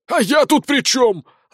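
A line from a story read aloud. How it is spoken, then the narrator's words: Growling. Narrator (Russian): рыкнул заключенный бандит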